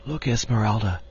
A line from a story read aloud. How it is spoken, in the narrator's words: she whispered